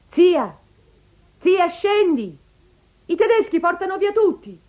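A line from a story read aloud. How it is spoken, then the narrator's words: Niece shouting. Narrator (Italian): È una nipote che le grida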